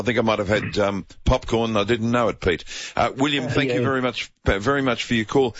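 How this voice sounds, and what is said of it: Croaky, throaty voice. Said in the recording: “I've got a frog in my throat.”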